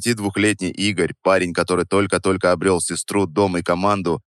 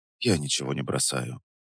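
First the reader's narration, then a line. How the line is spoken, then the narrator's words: Soft but firm, steadied voice. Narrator (Russian): сказал я мягко, но твердо, стараясь, чтобы голос не дрожал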